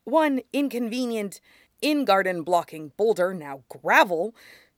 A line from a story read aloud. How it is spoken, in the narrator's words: Toph grumbled a bit more under her breath